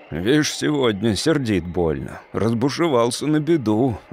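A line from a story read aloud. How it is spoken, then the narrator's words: Grumbling worker. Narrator (Russian): ворчал рабочий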